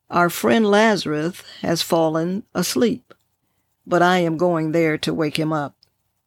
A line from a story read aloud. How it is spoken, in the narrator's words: Jesus calmly said